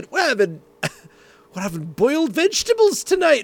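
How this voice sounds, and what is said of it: Poor put-on Scottish accent. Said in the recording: “in the lowlands of Scotland ... That's the worst accent I'll ever say”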